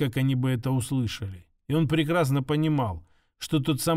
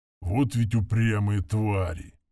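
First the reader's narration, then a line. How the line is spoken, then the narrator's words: Muttering under breath. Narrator (Russian): пробурчал он себе под нос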